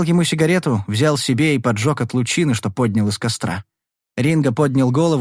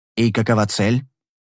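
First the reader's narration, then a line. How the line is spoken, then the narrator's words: Gloomy repetition. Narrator (Russian): Ринго мрачно повторил слова Ковалова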